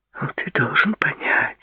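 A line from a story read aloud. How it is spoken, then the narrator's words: Whispered. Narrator (Russian): прошептала Клаудия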